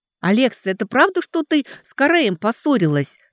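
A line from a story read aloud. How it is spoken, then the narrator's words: Excited shouting. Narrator (Russian): взволнованно закричала Лидия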